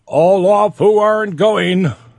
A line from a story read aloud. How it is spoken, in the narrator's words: roared the order out again